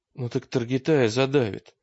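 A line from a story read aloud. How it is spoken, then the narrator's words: Uncertain. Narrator (Russian): сказал Олег неуверенно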